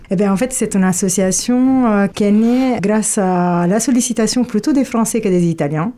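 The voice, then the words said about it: Italian accent speaking French. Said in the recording (French): “Un petit accent quand même ... italien, c'est sûr ... je garde toujours mon accent italien”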